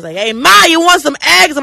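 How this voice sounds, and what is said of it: Loud Brooklyn or Bronx accent. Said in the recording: “Any Yankee accent is just grating ... from the Brooklyn or Bronx ... Why are you yelling?”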